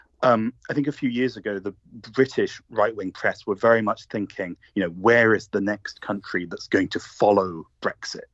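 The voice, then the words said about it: British accent. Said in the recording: “as you'll guess from my accent, I'm British myself.”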